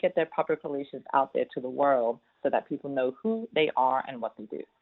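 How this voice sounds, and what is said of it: British accent mixed with Southern. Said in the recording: “that accent ... born and raised in London, North London, UK. Moved here many, many years ago, but never lost the accent. So I'm a British Southerner.”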